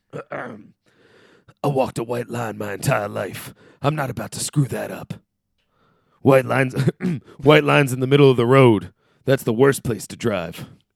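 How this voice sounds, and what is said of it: Impressions of Keith David and Roddy Piper. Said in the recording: “I'm gonna do a Keith David voice and a Rowdy Roddy Piper voice”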